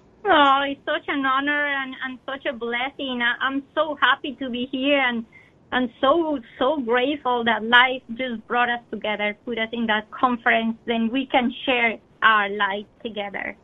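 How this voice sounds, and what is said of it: Slight Colombian accent. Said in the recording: “has a bit of an accent, if you might have noticed. She was born in Colombia.”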